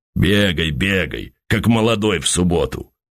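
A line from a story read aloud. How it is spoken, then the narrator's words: Smoky bass hurrying shouts. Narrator (Russian): Федор Иванович Плещей, посасывая мундштук, прокуренным басом покрикивал, торопя мойщиков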